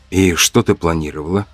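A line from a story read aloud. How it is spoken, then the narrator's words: Quiet question. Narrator (Russian): спросил я тихо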